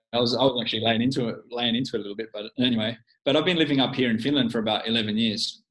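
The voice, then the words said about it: Australian accent. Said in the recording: “I'm actually an Aussie. You probably detect that from my accent.”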